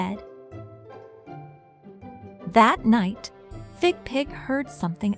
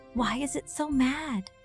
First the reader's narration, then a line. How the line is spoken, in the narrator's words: Fig Pig whispered